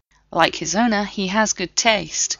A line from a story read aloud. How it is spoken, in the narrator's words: John replied